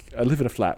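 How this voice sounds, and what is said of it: Put-on English accent. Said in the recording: “how we exercise our English accent.”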